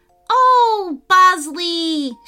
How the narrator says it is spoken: she cried

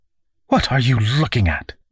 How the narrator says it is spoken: Miss Fanny said sharply

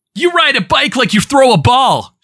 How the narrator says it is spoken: shouted Jason

